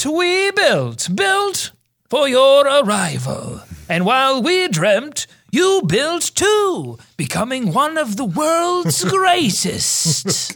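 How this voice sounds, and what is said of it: Theatrical Shakespearean reading voice. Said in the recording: “What if I read this in a Shakespearean voice? ... it's Shakespearean”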